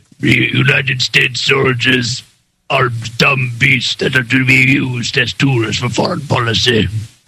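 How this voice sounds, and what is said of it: Throat-straining accented demon-like voice. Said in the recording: “say that in the accent ... that kind of hurt my throat to do that demon voice. I mean, Henry Kissinger voice”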